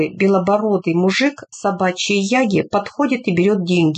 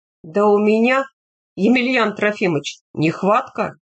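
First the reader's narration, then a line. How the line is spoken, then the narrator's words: Plain. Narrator (Russian): говорит Медведев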